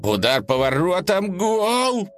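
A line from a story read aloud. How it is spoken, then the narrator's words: Shouted in sleep. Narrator (Russian): прокричал во сне дружок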